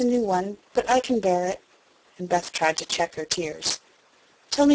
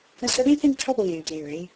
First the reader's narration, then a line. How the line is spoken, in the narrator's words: she only said in her tenderest tone